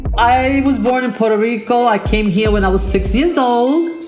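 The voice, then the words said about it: South Bronx accent. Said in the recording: “South Bronx accent”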